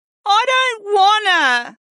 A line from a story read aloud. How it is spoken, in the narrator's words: she whined with her voice muffled by the sheets